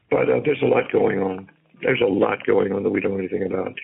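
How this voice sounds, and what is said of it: Hoarse, whispery voice. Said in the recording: “excuse me for being so hoarse ... You're whispering in my ear with that hoarse voice”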